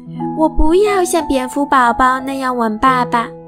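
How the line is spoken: Bear cub shouting. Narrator (Chinese): 熊宝宝叫道

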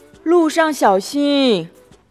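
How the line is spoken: Loud. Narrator (Chinese): 泡泡大声的对狐狸博士说

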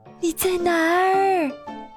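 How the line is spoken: Shouting. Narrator (Chinese): 嘟嘟，他喊道

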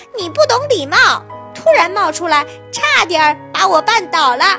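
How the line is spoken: Angry shouting. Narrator (Chinese): 小狗生气的大叫

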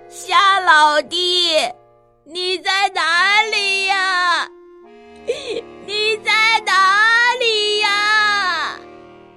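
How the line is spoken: Crying while shouting. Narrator (Chinese): 蚯蚓那一边哭一边喊

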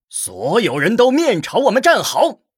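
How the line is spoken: Loud. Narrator (Chinese): 一名武人大声说道

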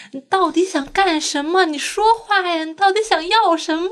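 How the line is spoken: Angry, banging wall. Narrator (Chinese): 那个男的在砸墙说

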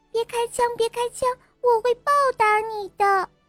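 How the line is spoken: Fish crying out. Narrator (Chinese): 鱼儿叫道

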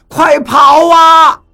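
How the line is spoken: Terrified shouting. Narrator (Chinese): 这一下真把我们都吓惨了，当时大声喊着

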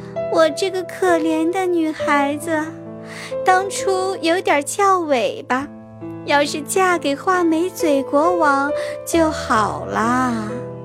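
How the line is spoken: Sighing, lamenting. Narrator (Chinese): 公主又唉声叹气地说

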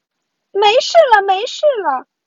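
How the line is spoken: Shouting. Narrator (Chinese): 女仆大叫

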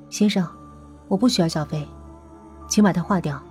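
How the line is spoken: Flat, indifferent. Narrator (Chinese): 他 淡淡的说

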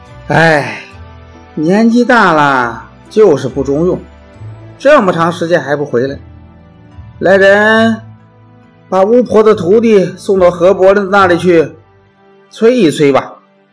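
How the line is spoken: Sighing. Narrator (Chinese): 西门豹叹了口气，说

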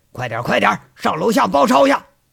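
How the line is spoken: Shouted. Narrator (Chinese): 一喊

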